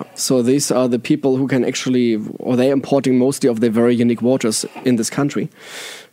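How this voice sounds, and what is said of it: German accent in English. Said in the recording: “my German accent, my funny German accent”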